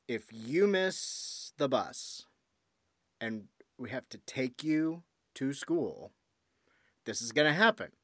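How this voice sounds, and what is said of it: Stern, scolding fatherly voice. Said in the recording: “God, my dad voice is coming out. ... I heard it. Yeah, I was like paying attention. I was like, oh shit, what did I do wrong”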